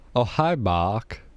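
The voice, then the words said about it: Imitates another person's voice, badly. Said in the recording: “that was a terrible, terrible, terrible impersonation”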